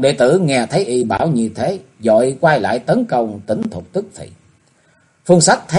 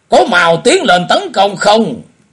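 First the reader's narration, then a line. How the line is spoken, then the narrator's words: Ashamed, angry shout. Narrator (Vietnamese): vừa hổ thẹn vừa tức giận, liền quát bảo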